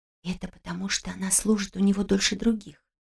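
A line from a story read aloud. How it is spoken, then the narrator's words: Confiding whisper. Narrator (Russian): доверительным шепотом сообщила Мария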